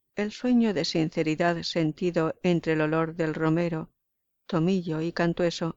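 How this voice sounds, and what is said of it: Usual voice. Nothing is said of it.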